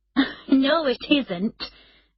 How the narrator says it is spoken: Emma replied, laughing

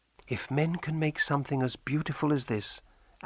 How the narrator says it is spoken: Anne whispered

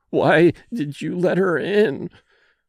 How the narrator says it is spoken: she moaned

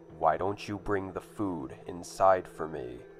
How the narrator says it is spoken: said, almost in a demanding tone

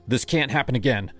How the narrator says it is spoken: I said, my voice sharper than I meant

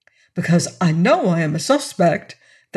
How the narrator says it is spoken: the other replied eagerly

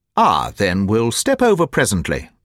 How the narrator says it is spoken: said the Colonel, coolly

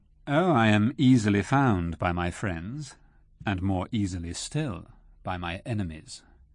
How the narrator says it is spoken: replied Rashleigh coolly

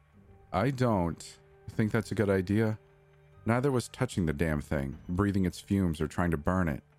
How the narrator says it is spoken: Stephanie said

